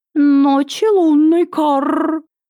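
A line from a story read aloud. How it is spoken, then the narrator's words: Cawing. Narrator (Russian): Прокаркала посыльная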